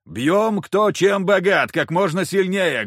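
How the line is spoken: Loud shout. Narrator (Russian): громко крикнул я

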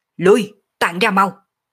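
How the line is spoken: Panicked shout. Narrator (Vietnamese): Lăng Phong Vân hoảng sợ biến sắc, hét to

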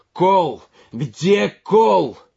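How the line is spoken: Shouted. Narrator (Russian): крикнул Георгий

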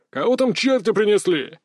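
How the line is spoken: Distant barked shout. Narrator (Russian): рявкнул кто-то со двора

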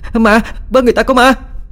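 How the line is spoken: Shouting. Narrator (Vietnamese): Vừa hét

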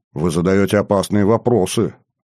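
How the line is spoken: Dry snort. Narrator (Russian): хмыкнув, ответил ей Максим

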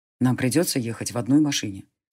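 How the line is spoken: Quiet. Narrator (Russian): тихо сказал он

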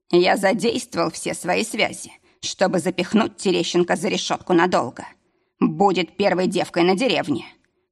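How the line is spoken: Snorting chuckle. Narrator (Russian): хмыкнул

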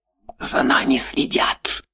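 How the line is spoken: Whisper. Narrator (Russian): сказал он шепотом

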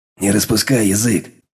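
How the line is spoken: Growled. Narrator (Russian): рыкнул Броган

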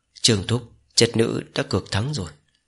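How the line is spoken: Soft, weak, smiling. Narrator (Vietnamese): gương mặt tái nhợt của Mộc Lan, nàng ta hiếm hoi lộ ra mỉm cười, nói khẽ

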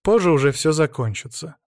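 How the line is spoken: Curt, dry remark. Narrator (Russian): сухо бросил он

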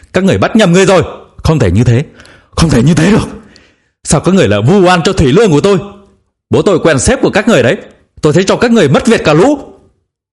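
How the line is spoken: Tearful frantic screaming. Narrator (Vietnamese): Người phụ nữ đang vùng vẫy khóc lóc, chợt run bắn, gào lên ầm ĩ

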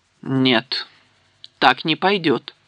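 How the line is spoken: Stern. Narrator (Russian): строго сказал Гендальф

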